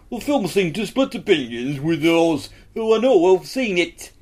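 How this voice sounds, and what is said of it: Put-on northern English accent, drifting Yorkshire. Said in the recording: “the accent was excellent ... I did too much Yorkshire, really, didn't I? ... I truly felt I was going back and forth on the East Coast line between Newcastle and York.”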